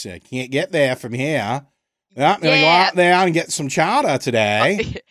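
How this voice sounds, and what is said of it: Put-on New England accent. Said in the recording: “You know, you get the New England accent too”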